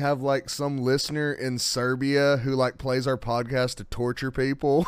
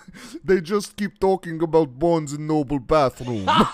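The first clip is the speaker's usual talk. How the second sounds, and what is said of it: Bad put-on Serbian accent, sounds Russian. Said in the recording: “was that supposed to be Serbian? ... a terrible Serbian accent? ... That was just a terrible accent. ... It sounded a lot more Russian.”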